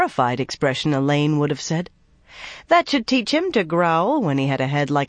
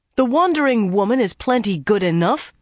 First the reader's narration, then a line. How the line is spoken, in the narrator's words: he began angrily